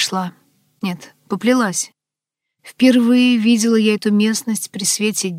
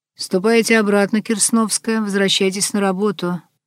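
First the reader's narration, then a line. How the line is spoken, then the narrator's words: Creaky expressionless voice. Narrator (Russian): проскрипел лишенный выражения голос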